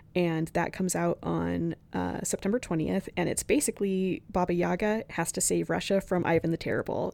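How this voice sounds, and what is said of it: Very raspy voice. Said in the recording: “My voice is extra raspy today”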